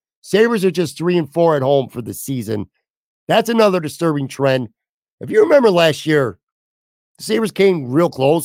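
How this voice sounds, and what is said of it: Strained, fading voice. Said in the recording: “I'm starting to lose my voice. I literally could feel it about 20 minutes in... I am clearly, folks, losing my voice”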